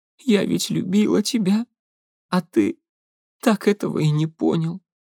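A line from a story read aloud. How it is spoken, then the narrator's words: Tearful, sobbing speech. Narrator (Russian): сквозь всхлипывание Глеб с трудом различил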